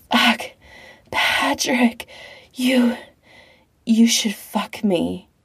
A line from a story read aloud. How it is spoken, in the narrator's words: Pete pants, mouth wet and loose